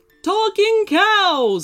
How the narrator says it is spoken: She just screamed

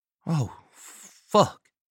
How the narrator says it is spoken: Balmer breathed

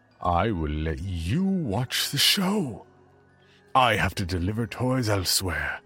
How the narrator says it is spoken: He made another bellow of jolly laughter as he kept the feed going and added

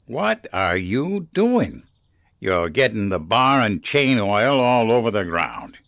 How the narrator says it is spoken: he growled

